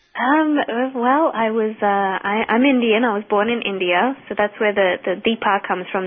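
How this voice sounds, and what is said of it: Mixed British Isles and Boston accent. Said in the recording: “I hear everything from a British Isles accent to even Boston.”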